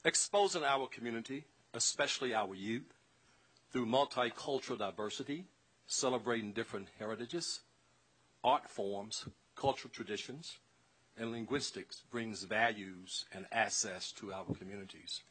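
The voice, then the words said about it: Southern US accent. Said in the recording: “I may sound different than most of you from my southern dialect”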